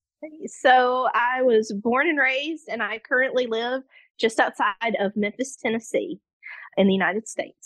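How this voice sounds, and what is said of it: Tennessee Southern US accent. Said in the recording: “your beautiful accent”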